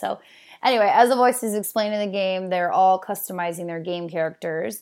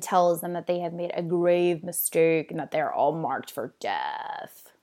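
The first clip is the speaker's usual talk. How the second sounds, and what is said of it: Deep put-on voice. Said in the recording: “deep voice ... That was my impersonation of voice. It wasn't very good.”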